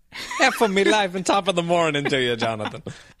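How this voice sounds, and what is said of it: Put-on Viking accent. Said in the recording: “I think I was going for a Viking accent there”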